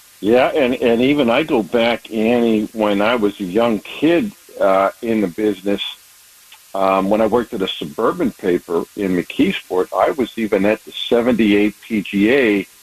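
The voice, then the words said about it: Slight Pittsburgh accent. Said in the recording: “I know you were born and raised in Pittsburgh. You know, I love hearing you talk ... Pittsburgh people have a little bit of an accent”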